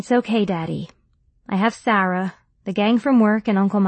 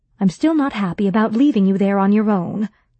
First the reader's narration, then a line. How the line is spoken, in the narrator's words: Mom said